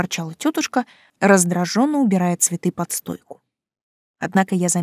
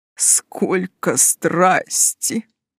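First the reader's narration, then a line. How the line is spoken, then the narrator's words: Bearded man's excited mutter. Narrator (Russian): воодушевленно пробормотал бородач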